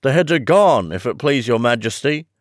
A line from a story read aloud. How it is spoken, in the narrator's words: the soldiers shouted in reply